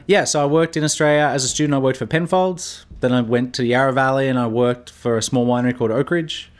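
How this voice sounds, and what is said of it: Australian accent. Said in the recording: “obviously you have an accent, so I believe you're from Australia”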